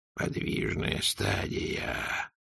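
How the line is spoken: Whisper. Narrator (Russian): прошептал Ветрамсдумс

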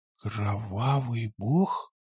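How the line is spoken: Astonished whisper. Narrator (Russian): изумленно прошептал я

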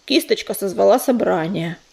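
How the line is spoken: Grumbling. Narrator (Russian): проворчал Бурый

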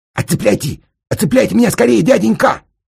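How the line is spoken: Panicked yell. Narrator (Russian): заорал Сенька, потому китаец уже совсем близко был

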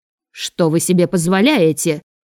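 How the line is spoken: Shout. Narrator (Russian): выкрикнула ее мать

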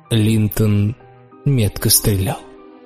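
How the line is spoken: Calm reply. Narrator (Russian): спокойно ответил Лючио

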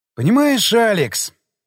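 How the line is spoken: Sighing. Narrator (Russian): вздохнул я

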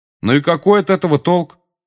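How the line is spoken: Loud question. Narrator (Russian): громко спросил Гарри

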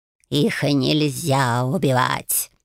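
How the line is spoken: Growl. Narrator (Russian): рыкнул Эльвиль

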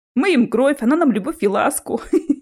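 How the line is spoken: Laughing. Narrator (Russian): рассмеялся Чес

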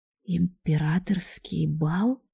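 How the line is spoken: Incredulous whisper. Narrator (Russian): прошептала недоверчиво

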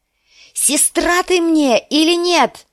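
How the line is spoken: Shouting. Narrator (Russian): закричала она

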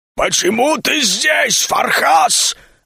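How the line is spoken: Sudden deep troll growl. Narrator (Russian): Вдруг утробно рыкнул самый большой тролль

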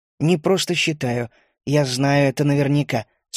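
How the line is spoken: Calm. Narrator (Russian): спокойно ответил я

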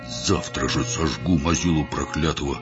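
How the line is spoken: Vow through gritted teeth. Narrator (Russian): сквозь зубы побожился Горох

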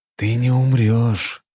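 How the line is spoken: Hiss close to ear. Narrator (Russian): прошипел я, наклонившись к его уху

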